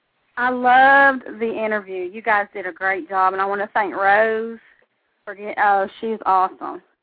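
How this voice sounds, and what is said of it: Southern American twang accent. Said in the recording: “I love your accent. ... some southern twang”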